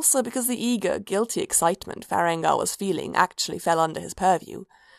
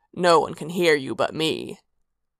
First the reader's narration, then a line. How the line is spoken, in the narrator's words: he growled